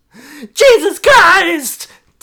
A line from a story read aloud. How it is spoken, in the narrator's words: Teddy cried